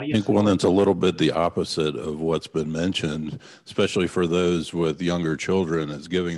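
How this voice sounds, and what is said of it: Smooth radio-style voice. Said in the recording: “you have a radio voice”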